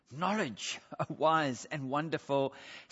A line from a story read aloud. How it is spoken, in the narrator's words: Between heavy breathing and breaths, the fellow wheezed